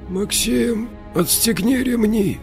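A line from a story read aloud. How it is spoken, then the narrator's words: Weak voice. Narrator (Russian): слабым голосом проговорил Тимур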